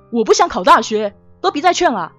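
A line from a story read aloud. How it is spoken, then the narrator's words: Dull, muffled roar. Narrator (Chinese): 胡小宁沉闷的吼声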